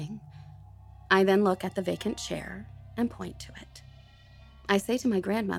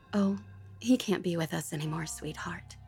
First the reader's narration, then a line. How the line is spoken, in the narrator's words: trying to explain that he was dead gently to an infant, my grandmother just said